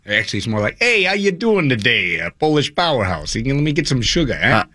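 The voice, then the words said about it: Put-on Boston accent. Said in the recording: “I don't have a Boston accent.”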